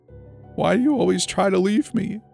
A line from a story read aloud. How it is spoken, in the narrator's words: she sobbed